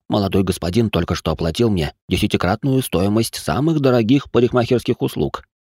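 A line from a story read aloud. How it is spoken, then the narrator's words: Barber whispering in ear. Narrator (Russian): прошептал цирюльник на ухо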